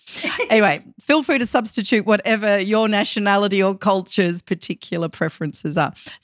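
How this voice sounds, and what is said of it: Australian accent. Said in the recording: “I already have an Australian accent.”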